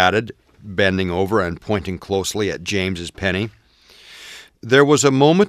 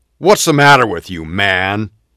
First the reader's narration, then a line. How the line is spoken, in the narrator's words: James snarled